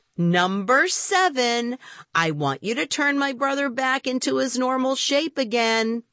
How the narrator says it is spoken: I said loudly

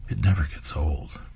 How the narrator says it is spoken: Grimm, having heard this news, whispers

